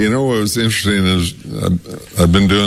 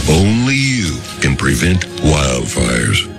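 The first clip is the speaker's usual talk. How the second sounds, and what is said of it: Deep Smokey the Bear voice. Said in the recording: “deep voice... Smokey the Bear... doing that voice”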